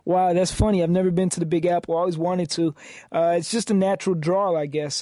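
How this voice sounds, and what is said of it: New York accent. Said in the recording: “Why do you have a New York accent ... Your co-host sounds like he's from New York.”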